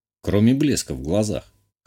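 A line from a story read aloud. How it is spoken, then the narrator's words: Snort. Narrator (Russian): хмыкнул я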